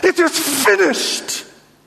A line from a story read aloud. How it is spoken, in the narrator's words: he pushes himself up again and cries